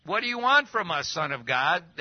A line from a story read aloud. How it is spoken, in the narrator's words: They shouted